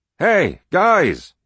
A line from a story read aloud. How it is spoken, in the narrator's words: he yelled